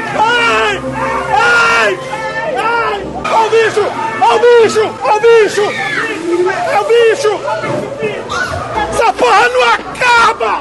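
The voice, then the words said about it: High-pitched screaming like a little girl. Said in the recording (Portuguese): “gritando igual a menininha”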